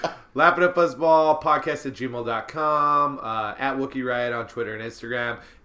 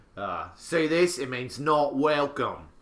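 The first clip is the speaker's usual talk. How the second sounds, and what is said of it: Put-on British-sounding accent. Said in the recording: “I don't know why I said it in that accent, though. That's not how Edward Norton said it. ... It's like he was a British in American history.”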